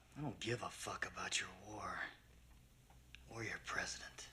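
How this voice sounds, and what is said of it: Clint Eastwood impression. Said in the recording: “he's doing his best improv troops impression of Clint Eastwood”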